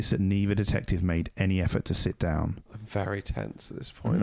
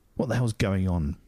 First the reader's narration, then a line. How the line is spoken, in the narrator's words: Bill asked, his voice betraying his alarm